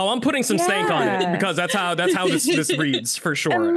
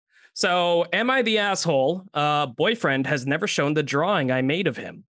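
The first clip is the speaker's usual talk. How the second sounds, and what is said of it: Announcer-style reading voice. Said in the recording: “I love your, like, announcer voice.”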